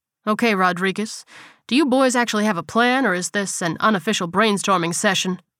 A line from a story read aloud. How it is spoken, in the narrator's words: asked